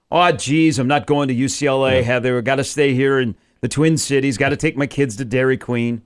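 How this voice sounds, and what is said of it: Put-on Minnesota accent. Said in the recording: “the North Dakota Minnesota accent is at the top of my list ... Just throw you betcha”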